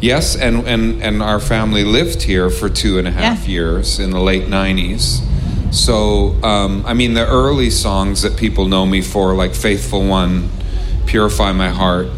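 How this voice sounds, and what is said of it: Non-British North American accent. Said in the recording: “by the accent, you're not a man from around these parts.”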